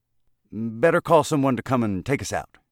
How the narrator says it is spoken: he said nervously

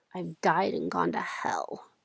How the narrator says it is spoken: Battery muttered

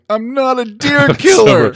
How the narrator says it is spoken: him shouting

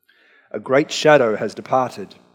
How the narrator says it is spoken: said Gandalf

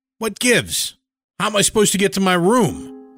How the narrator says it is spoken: I barked

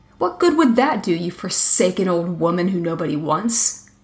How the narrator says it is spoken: sneered Wilhelm

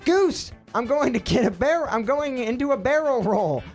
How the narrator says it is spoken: Doug sitting on my leg yelling

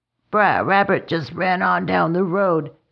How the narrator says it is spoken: he told the grumpy Br'er Bear in a deep croaking voice that sounded just like the sound of a frog

